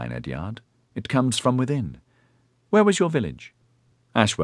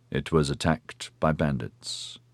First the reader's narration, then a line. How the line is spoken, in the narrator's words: he said stiffly